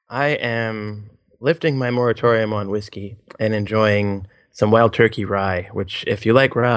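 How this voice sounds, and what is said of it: Usual voice. Nothing is said of it.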